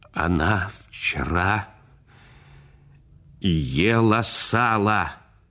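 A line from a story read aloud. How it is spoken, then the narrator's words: Trembling voice. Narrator (Russian): дрожащим голосом сказал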